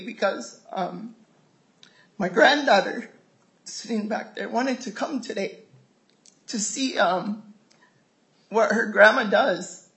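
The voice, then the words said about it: Emotional, tearful voice. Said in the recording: “get emotional again here. I did this morning, but I'm going to get emotional”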